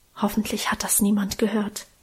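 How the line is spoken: Whisper. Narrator (German): flüsterte

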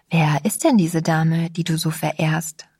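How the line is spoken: Plain question. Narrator (German): fragte ich

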